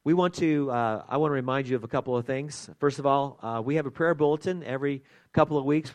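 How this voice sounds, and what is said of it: Strained, unwell-sounding voice. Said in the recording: “as you can probably tell, my voice is not all that good”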